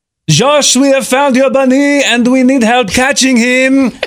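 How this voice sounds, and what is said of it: Put-on French accent. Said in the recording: “that was my attempt at sounding like a cool French accent”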